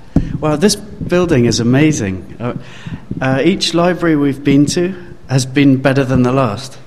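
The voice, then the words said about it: London English accent. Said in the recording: “I come from London, and you might have guessed by the accent”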